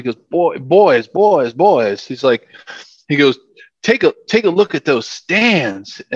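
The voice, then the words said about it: Put-on Southern accent. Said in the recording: “tried to do my Southern accent. You know, he's from North Carolina.”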